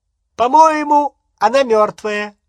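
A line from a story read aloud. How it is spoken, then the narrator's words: Joyful shout. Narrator (Russian): радостно закричал он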